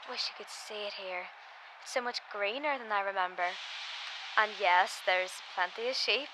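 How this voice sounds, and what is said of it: Strong accent. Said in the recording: “You think my accent is strong, man?”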